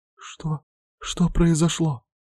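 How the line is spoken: Hoarse frightened whisper. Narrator (Russian): хриплым голосом прошептала испуганная Арина

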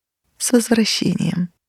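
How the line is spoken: Gentle, affectionate. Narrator (Russian): мать ласково проговорила

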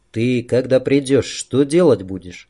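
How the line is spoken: Quiet question. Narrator (Russian): Жора, тихо спросил

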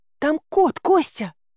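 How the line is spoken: Exclamation. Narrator (Russian): воскликнула

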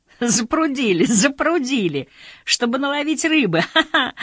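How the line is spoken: Laughing. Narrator (Russian): рассмеялись

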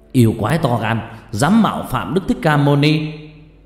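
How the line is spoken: Warrior's shout. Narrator (Vietnamese): thiên tướng hét lên

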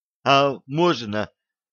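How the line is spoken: Timid question. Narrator (Russian): робко спросил эксперт

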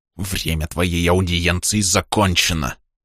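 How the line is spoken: Hissing monk. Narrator (Russian): прошипел монах

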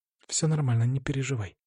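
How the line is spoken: Whisper. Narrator (Russian): шепнула она

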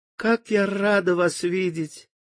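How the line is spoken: Soft tender cawing crow. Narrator (Russian): ворона тихо и нежно каркала

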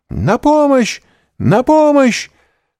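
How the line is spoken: Shout. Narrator (Russian): закричала мадмуазель Дармильи

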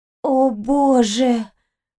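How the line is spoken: Breathed out. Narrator (Russian): выдохнула Пончик

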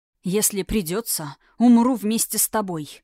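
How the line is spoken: Hoarse, deep breath. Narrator (Russian): прохрипел, делая глубокий вдох

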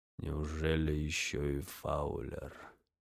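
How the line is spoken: Quiet, muffled through hands. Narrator (Russian): тихо произнес он сквозь ладони

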